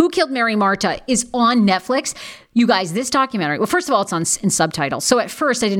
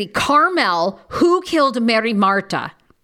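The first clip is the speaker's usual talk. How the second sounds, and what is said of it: Put-on Argentinian accent. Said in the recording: “I'm putting on the Argentinian accent.”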